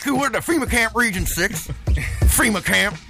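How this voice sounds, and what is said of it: Imitates another person's voice. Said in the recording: “my Alex Jones impression”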